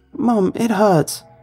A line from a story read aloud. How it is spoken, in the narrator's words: My voice warbled with sobbing tones as I shouted repeatedly